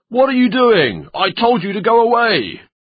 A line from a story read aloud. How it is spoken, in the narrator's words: Suddenly the butcher shouted